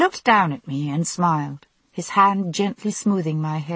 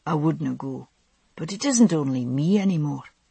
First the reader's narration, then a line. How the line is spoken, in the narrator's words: he said softly